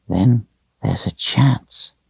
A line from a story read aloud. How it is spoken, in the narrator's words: he whispered